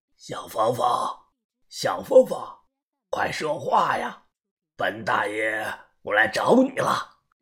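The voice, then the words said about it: Weird, sly mocking voice. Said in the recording (Chinese): “电话那头的说话声是阴阳怪气”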